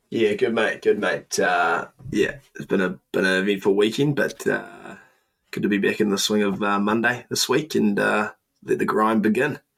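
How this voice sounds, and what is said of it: Slightly croaky voice. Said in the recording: “I hear your voice is a bit croaky.”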